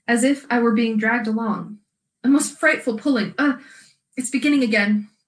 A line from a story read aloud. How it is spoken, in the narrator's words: said Edmund in a breathless voice